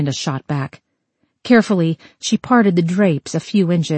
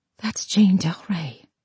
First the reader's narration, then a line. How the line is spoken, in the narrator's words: She whispered